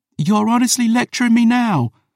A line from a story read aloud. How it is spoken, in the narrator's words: she shouted